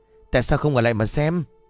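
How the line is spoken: Terrified snapping. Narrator (Vietnamese): Xuân điếng hồn, gắt

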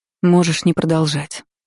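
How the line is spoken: Sigh. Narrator (Russian): вздохнула, вспомнив обстоятельства нашего знакомства

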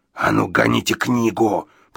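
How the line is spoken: Menacing hiss. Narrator (Russian): прошипел Гадсон

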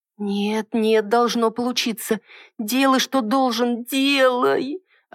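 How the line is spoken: Hopeless moan. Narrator (Russian): Обреченно простонала

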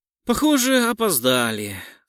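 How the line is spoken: Regretful tone. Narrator (Russian): сказал сожалеющим тоном

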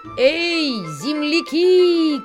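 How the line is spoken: Shouting. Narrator (Russian): кричали дикие гуси

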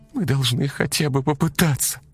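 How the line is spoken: Pleading. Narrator (Russian): взмолилась Ксюша

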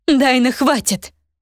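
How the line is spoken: Spirit's exclamation. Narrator (Russian): воскликнул золотой дух Елены

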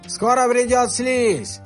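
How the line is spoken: Yelling. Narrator (Russian): заорал Ревел

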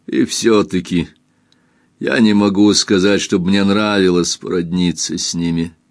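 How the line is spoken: Plain. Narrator (Russian): ответил Лавранс

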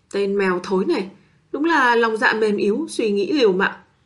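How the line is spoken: Sighing. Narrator (Vietnamese): Bạch Ngọc Đường thở dài một hơi

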